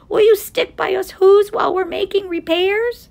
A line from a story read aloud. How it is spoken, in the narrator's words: pleaded that voice of the mayor's